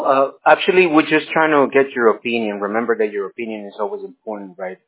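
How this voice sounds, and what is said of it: Spanish or Mexican accent. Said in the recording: “You sound Spanish or Mexican. Your accent. ... I can tell by your accent.”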